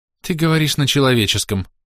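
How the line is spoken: Relieved sigh. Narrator (Russian): облегченно вздохнул говоривший

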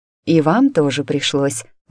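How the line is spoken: Sighing. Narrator (Russian): вздохнула я

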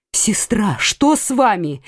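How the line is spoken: Alarmed exclamation. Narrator (Russian): воскликнула Маргарита

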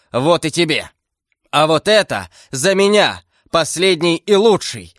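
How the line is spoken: Enraged shout. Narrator (Russian): закричал взбешенный Д'Артаньян

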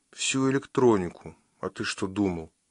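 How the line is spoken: Sighing. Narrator (Russian): вздохнула

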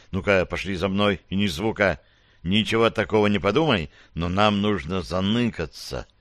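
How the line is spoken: Whisper right in ear. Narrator (Russian): прошептал ей в самое ухо

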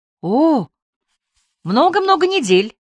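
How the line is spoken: Cheerful reply. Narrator (Russian): весело отвечала Хадия

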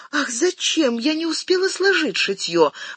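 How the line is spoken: Exclamation. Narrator (Russian): воскликнула Отикубо

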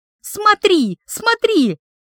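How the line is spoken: Uncontrolled shout. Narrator (Russian): закричала я, все-таки не сдержавшись

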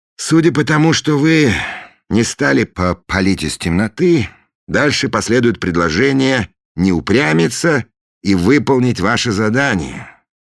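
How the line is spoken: Sighing. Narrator (Russian): вздохнул Фандорин

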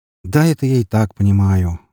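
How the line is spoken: Sighing. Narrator (Russian): вздохнул я

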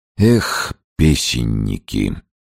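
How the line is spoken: Gloomy grunt. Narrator (Russian): уныло крякнул Подтягин

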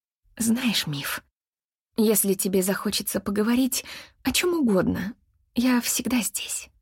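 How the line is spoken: Very quiet, nearly whispered. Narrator (Russian): сказала она очень тихо, почти шепотом

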